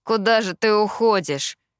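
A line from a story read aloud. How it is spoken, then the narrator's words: Displeased grumble. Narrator (Russian): недовольно проворчал Кит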